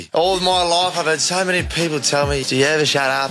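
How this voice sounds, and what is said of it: Australian accent. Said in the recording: “This is my favourite Australian accent.”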